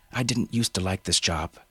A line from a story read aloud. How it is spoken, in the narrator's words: she said